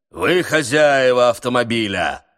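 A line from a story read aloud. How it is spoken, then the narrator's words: Thunderous voice. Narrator (Russian): спросил он громовым голосом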